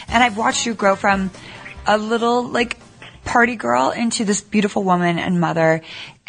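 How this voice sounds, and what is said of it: Hoarse, fading voice. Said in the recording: “I'm losing my voice,”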